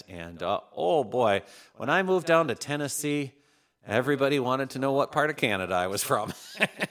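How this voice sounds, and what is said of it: Minnesota accent. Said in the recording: “I'm from the great state of Minnesota, if you can't tell by the accent.”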